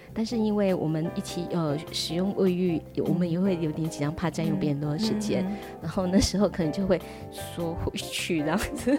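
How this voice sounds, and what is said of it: Suddenly speaking quietly. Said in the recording (Chinese): “为什么你讲到这个的时候，然后就就突然间变小声了？”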